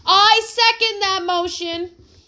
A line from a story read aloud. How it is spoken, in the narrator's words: shouted Buddy